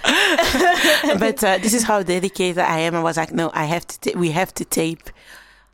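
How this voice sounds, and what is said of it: Hoarse, strained, nearly lost voice. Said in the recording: “my voice is a bit calm because of whiskey. ... she lost her damn voice.”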